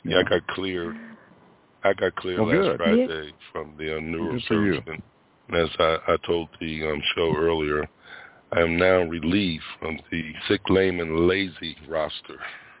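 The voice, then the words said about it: Slightly hoarse voice. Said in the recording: “that's probably why I'm a little hoarse now”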